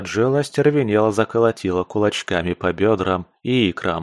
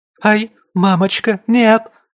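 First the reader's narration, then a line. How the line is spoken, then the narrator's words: Frightened shriek. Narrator (Russian): взвизгнула Мараджелла, когда ей показалось, что лапы монстра шевельнулись, и паук качнулся в ее направлении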